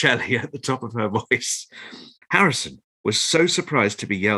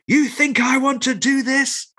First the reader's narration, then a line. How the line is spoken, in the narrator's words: howled Shelley